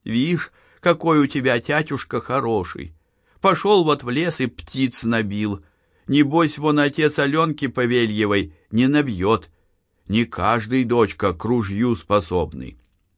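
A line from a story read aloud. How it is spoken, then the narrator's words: Tender, affectionate. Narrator (Russian): ласково говорила Маришке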